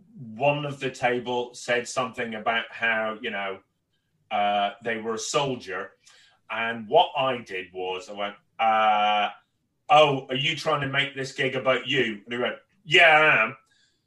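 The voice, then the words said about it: Northern Irish accent. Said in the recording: “I'm born and raised in Northern Ireland and my accent has changed over the years, but that's when it really kicked back.”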